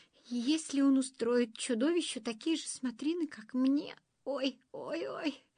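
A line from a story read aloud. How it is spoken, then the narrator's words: Groaning in pain. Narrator (Russian): застонал Пиф-Паф, потирая намятые бока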